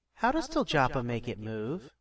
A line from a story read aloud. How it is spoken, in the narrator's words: She giggled and leaned to whisper into his ear